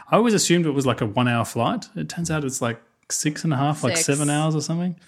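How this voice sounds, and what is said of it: Non-American English accent. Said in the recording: “I'm not an American, obviously, like if you can't tell by the accent.”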